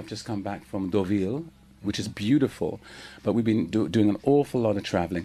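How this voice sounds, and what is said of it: Slightly tired singing voice. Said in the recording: “my voice is a little bit tired because I've been touring. I've been singing every day. You can hear a bit of a...”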